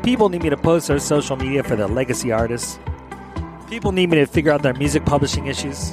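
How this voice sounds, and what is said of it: Philadelphia accent. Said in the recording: “my Philadelphia accent”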